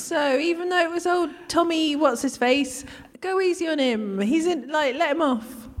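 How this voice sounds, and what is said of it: Shropshire accent. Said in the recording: “That's a brilliant Tommy Shropshire accent”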